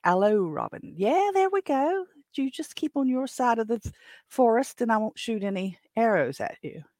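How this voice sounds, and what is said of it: Sheriff of Nottingham character voice. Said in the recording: “in my best Sheriffs of Nottingham accent”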